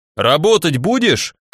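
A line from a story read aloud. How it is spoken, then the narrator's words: Angry shout. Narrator (Russian): крикнул сердито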